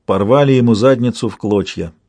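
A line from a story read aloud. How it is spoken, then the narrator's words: Grim. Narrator (Russian): мрачно сообщила Натмек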